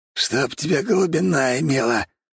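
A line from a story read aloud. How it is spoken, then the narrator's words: Growl. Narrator (Russian): прорычал он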